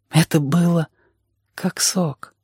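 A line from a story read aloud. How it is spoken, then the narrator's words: Quiet. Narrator (Russian): сказал он тихо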